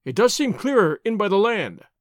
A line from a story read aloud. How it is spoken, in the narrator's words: he cried